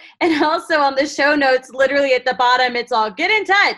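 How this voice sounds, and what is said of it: Usual voice. Nothing is said of it.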